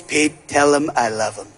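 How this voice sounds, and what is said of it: Imitates another person's voice. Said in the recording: “his impression of President Trump”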